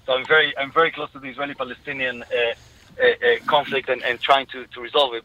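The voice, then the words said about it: Israeli accent. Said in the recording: “from my accent, you can hear I'm Israeli”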